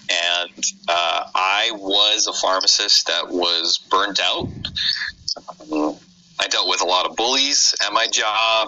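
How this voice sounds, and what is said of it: American accent. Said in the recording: “Live in the United States, obviously, if you can't tell from my weird accent.”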